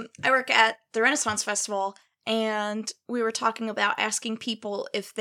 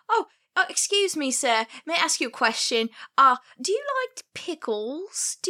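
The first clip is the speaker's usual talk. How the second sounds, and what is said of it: Put-on Cockney accent. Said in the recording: “I'm walking around in this Cockney accent”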